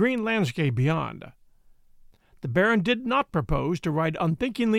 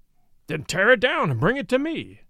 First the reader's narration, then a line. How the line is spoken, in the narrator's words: cried the Baron